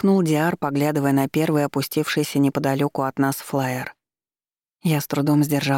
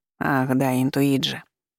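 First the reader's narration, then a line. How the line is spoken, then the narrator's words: Sighing. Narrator (Russian): вздохнул Маркус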